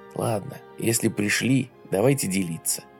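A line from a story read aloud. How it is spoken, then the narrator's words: Quiet. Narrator (Russian): тихо сказал Скальберг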